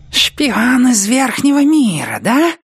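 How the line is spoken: Hissing rat-creature. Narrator (Russian): прошипел предводитель крыситов

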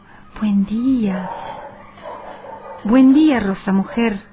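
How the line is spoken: Delighted murmur. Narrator (Spanish): murmuró encantado

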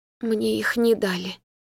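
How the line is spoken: Mumbling. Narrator (Russian): бормочет мама

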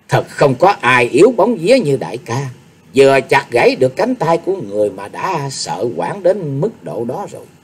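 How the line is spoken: Pouting, sneering. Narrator (Vietnamese): nàng ta đã chẩu môi cười khẩy rồi nói tiếp

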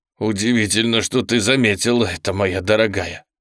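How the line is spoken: Moaning. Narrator (Russian): простонал он

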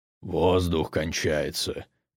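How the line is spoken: Quiet. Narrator (Russian): тихо сообщил Угрх

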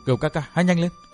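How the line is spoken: Soft whisper. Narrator (Vietnamese): Tiểu Tây Thi khẽ thầm

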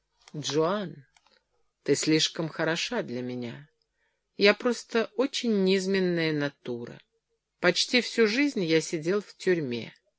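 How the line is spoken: Sad. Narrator (Russian): он печально произнес

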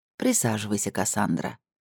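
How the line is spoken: Gentle request. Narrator (Russian): мягко попросила Камила

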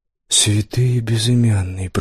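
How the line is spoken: Whisper. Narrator (Russian): прошептал он

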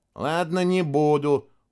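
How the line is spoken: Grumbling. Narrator (Russian): пробурчал Костя

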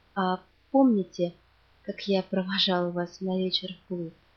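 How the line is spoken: Plain. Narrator (Russian): сказал

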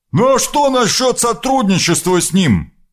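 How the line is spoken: Shouted after someone. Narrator (Russian): крикнул ей вслед Дан

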